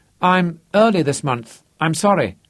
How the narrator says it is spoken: Terry blurted

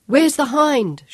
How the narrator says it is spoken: yelled back

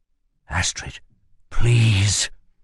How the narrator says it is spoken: whispered Kell, his voice wavering

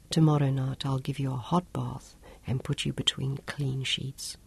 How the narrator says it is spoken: he whispered to her

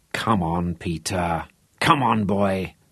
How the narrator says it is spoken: muttered to himself

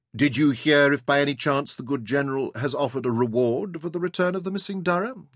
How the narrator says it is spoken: asked

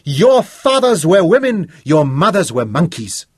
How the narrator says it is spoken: Joseph Dinizulu cried

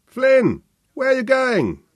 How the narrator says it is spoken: Sebastian shouted after him

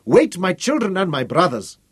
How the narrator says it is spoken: he cried

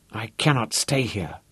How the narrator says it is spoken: he decided miserably

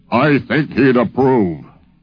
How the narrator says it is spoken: he said in that beautiful, booming voice of his

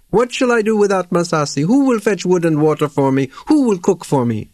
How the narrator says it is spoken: He wailed and wept and said to Maori

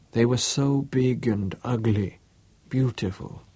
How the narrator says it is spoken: she said softly

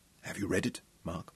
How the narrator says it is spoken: asked softly

